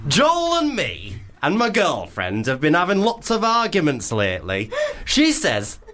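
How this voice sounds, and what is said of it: Attempted Leeds accent, possibly sounding Hull. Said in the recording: “should we do a Leeds accent? ... I'm not really sure of the regionals of anything above the M25. So I'm sorry if it doesn't sound Leeds. Maybe it'd be Hull.”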